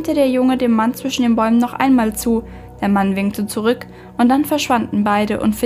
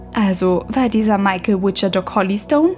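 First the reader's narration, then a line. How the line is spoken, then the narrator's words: Plain. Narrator (German): fragte Clem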